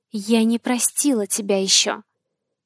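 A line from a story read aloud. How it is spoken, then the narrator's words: Whisper. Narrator (Russian): шепнула Марсия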